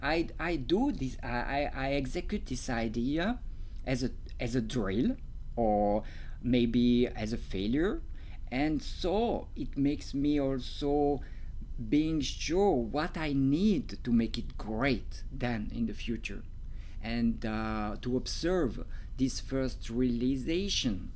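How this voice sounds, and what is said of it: Swiss French-accented English. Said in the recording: “I hope you enjoy my accent. ... I have a French accent, and maybe it's not really like French you are used to, because I come from Switzerland”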